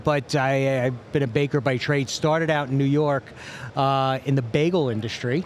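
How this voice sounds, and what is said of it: Noticeable accent. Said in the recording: “if you couldn't tell from my accent”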